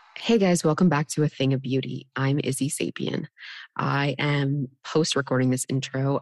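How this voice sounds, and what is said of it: Sick, slightly altered voice. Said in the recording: “I have had pneumonia and a sinus infection for about two weeks now. So that's why my voice sounds a little bit different.”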